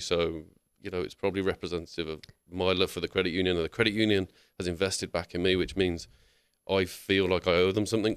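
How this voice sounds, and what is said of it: Sophisticated-sounding accent. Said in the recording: “I was completely lost in your accent ... it automatically sound more sophisticated”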